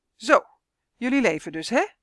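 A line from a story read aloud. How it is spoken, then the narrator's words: Called out. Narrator (Dutch): riep hij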